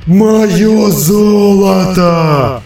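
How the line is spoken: Dragon howling. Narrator (Russian): взвыл дракон

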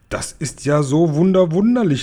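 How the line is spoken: Beaming exclamation. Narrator (German): rief der Guri aus und strahlte immer noch

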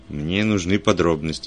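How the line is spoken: Grumpy mutter. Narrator (Russian): сварливо пробурчал Вульф

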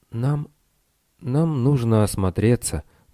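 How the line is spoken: Mutter. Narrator (Russian): пробормотал Лестер

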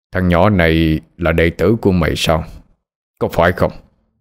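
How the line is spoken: Old man, gritted voice. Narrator (Vietnamese): Ông già, gằn giọng mà nói

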